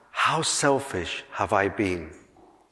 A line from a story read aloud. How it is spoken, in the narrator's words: the giant cried out